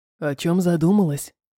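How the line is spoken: Hoarse voice. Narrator (Russian): хриплый голос продолжил

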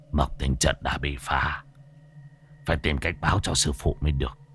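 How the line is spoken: Relieved old man muttering. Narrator (Vietnamese): Lão thầy cũng bây giờ mới yên tâm, lẩm bẩm

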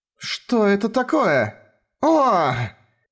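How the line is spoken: Astonished cry. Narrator (Russian): вскрикнули от изумления

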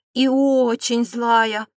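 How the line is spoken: Growling woman. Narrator (Russian): рыкнула принцесса

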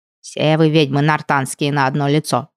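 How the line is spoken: House-spirit woman grumbling. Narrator (Russian): продолжала ворчать домушка

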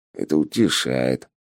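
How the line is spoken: Mutter. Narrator (Russian): буркнул Полос

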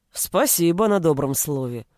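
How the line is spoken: Grumbled. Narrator (Russian): пробурчал Шилов

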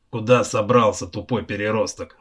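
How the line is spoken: Barked. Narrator (Russian): рявкнул Гарак

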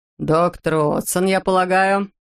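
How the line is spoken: Deep bass voice. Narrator (Russian): пробасил Лютер

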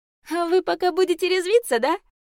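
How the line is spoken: Laughing out loud. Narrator (Russian): Яся запрокинула голову и расхохоталась

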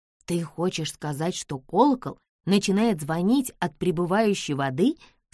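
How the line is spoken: Plain. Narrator (Russian): спросила Бесс

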